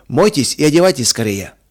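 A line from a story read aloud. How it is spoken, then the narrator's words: Calm and loud. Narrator (Russian): сказал спокойно и громко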